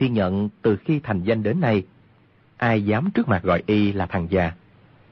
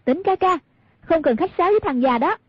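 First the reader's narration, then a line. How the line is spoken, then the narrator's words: Provoking call. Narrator (Vietnamese): Hoàng Dung muốn gây rối tâm lý của Cừu Thiên Nhận, bèn kêu lên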